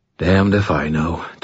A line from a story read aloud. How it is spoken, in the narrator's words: Thomas sighed